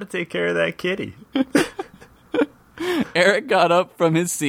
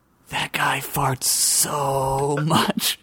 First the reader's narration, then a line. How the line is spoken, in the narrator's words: he whispered